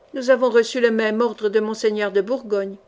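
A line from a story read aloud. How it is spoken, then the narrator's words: Plain. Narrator (French): dit Guine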